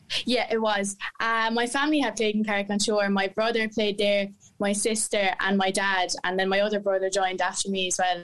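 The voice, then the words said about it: Irish Waterford accent. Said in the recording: “that's not really a Tipperary accent I'm listening to, is it? ... It's a Take Waterford accent.”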